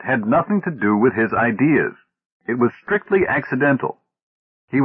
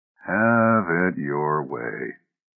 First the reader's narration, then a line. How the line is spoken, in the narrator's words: mumbled Oldbury